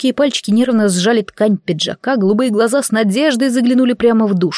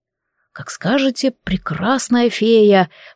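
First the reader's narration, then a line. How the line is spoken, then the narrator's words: Whisper. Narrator (Russian): прошептал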